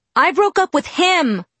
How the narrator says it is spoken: I shouted back

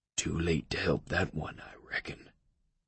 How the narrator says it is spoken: he whispered to my right

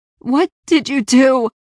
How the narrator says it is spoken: gasped

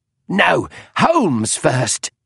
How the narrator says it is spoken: cried Irene Adler

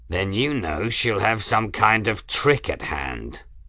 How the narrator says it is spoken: the pilot growled

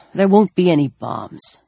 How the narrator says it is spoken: Tom grumbled

